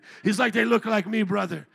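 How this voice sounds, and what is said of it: Attempted African accent. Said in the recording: “I'm trying an accent here. Please be patient with me.”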